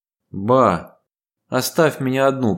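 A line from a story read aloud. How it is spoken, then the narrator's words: Moaning. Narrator (Russian): простонала Ева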